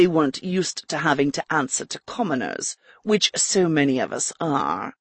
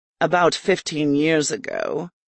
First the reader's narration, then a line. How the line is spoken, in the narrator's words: Adamat said with a sigh